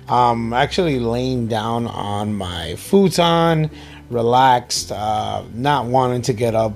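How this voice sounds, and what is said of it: Groggy just-woke-up voice. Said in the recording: “I sound different, it's because I just woke up”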